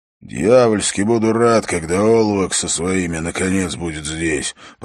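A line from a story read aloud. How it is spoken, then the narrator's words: Indistinct grumbling. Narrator (Russian): пробурчал он невнятно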